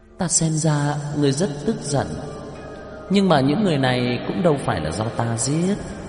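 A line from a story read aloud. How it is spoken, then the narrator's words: Smiling, dismissive. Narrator (Vietnamese): Cổ Kỳ Nguyệt mỉm cười, xem thường nói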